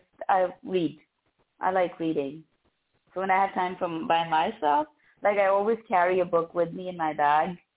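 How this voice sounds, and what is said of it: Lovely accent. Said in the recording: “you have such a lovely accent.”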